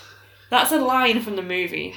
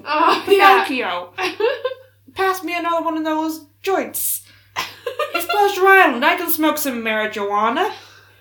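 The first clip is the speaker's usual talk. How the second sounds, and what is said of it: Put-on Brooklyn accent character voice. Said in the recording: “Lampwick with the Brooklyn accent”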